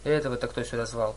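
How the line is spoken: Mutter. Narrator (Russian): пробормотал кто-то за столом Аполлона

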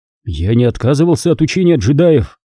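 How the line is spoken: Irritated. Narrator (Russian): сказал раздраженно

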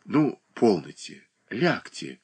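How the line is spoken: Gentle, tender. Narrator (Russian): ласково промолвила Катерина Александровна

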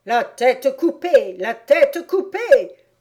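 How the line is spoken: Screaming. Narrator (French): hurlait-elle

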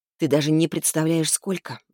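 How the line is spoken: Sighing. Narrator (Russian): вздохнула я

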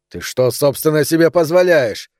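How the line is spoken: Shouting at mother. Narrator (Russian): кричал Романа на мать

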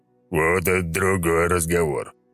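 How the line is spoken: Pleased bass. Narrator (Russian): довольно пробасил он

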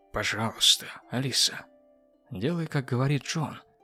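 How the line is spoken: Soft. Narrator (Russian): мягко сказал Эндрю

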